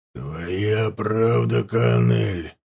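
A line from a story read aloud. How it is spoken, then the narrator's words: Hoarse. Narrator (Russian): произнес хрипло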